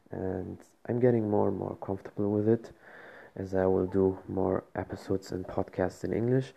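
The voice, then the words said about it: Speaker's own accented English. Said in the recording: “I hope my accent is not too bad for you all”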